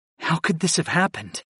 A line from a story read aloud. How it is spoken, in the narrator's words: I whispered, though I already knew the answer